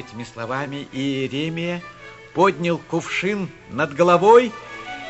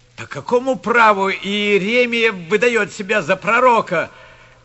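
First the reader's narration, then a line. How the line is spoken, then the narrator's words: Crowd shouting. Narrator (Russian): кричали в толпе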